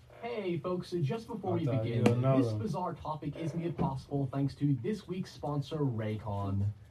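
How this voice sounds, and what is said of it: Soothing Northern Irish accent. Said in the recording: “my soothing, sexy Northern Irish accent”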